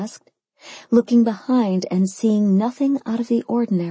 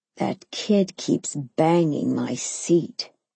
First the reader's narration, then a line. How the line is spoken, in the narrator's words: he grumbled through clenched teeth